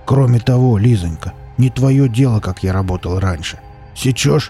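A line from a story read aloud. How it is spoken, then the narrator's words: Rough rebuke. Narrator (Russian): грубо осадил ее босс Велес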